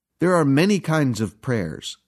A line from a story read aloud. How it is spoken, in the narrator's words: said Dr